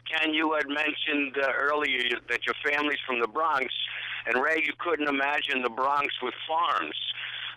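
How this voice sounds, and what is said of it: Bronx New York accent. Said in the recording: “As you can tell from the accent, I'm from the Bronx.”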